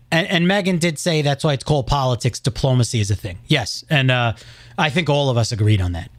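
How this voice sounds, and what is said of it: Heavy New York accent. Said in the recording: “Pretty heavy. It's still there. ... You just sound over. Like a monotone New York now. ... that accent”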